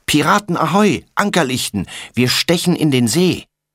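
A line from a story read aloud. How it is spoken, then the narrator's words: Shouting. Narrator (German): rast Tommy auf sie zu und schreit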